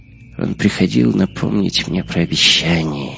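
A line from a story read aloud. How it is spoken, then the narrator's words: Barely audible whisper. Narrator (Russian): едва слышно прошептал Гитлер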